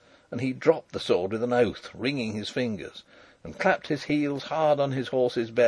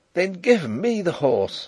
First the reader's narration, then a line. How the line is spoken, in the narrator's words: cried